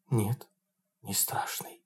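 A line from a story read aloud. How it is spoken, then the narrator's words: Whisper. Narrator (Russian): прошептала Тамара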